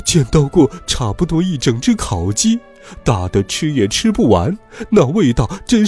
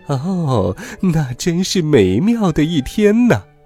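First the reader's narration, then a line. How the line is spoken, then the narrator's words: Fox laughing, reminiscing. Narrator (Chinese): 第一只狐狸笑着回忆道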